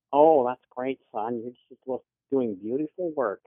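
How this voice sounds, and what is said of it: Doting mom impression. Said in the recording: “love your mom impression.”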